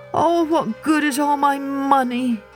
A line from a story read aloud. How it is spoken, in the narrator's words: groaned